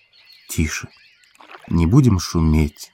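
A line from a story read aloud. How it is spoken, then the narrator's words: Whisper. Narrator (Russian): шепнул ей спутник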